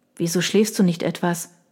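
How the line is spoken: Quietly added. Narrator (German): fügte leise hinzu

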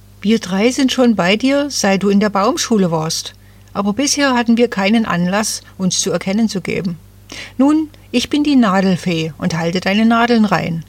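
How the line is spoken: Plain. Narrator (German): sagte die Erste

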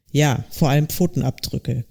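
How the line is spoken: Annoyed growl. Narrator (German): knurrte ungehalten

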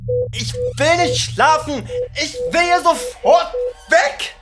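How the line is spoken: Screamed again. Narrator (German): schrie ich wieder

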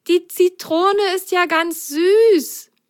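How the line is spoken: Delighted exclamation. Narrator (German): rief sie ganz verzückt

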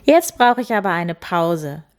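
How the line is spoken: Laughing. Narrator (German): lachte sie

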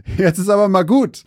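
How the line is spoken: Laughing. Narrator (German): lachte Mason

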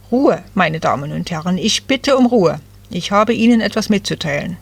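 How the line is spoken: Stern man calling out. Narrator (German): einer der streng aussehenden Männer rief

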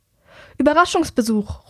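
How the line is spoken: Calls out. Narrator (German): ruft Herrick

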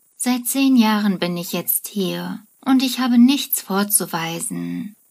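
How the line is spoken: Frustrated sigh. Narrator (German): seufzt frustriert

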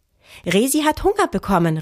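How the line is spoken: Called out. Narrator (German): rief

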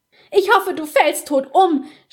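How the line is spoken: Struggling scream. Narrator (German): schrie sie, als Basta sie aus dem Zimmer zerrte

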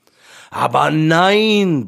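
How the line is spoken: Roaring lion. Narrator (German): brüllte der Löwe

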